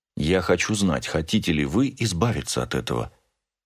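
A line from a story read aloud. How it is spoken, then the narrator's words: Said quietly. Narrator (Russian): тихо сказал я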